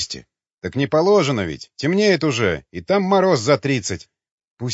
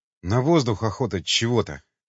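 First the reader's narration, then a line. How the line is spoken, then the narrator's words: Breathless mutter. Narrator (Russian): задыхаясь, пробормотал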